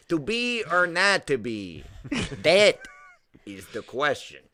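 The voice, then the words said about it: Western New York accent. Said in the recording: “everybody with like a Western New York accent doing Hamlet”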